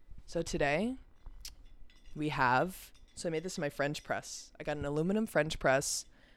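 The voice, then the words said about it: Slightly raspy voice. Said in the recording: “I hear my voice getting raspy”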